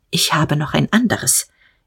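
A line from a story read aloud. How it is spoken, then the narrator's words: Short and quiet. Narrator (German): sagte er, kurz und leise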